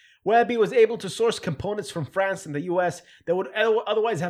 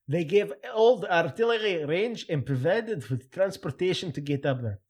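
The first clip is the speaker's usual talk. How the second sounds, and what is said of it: Made-up German-sounding put-on accent. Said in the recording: “I have no idea of what accent I should do. I don't want to do the cliche Lebanese one, so I'm going to just make one up from my head ... No, it's German ... I'm going to drop the accent.”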